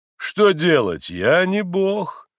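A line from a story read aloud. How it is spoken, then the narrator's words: Offhand yet imposing doctor. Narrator (Russian): Небрежным, хотя и привычно внушительным голосом ответил доктор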